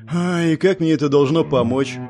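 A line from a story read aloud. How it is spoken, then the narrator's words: Sighed. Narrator (Russian): вздохнул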